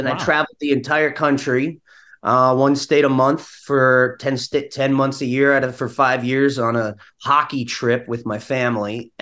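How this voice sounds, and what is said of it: Slight Minnesota twang. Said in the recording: “upstate accent ... A little Minnesota in there ... that twang”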